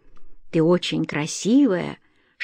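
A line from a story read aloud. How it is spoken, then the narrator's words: Whispered. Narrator (Russian): шептал он ей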